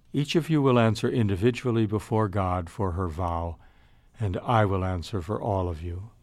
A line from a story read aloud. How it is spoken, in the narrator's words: The new prioress, who not only wasn't there when the vow was taken, but had actually disapproved of the idea, now says quietly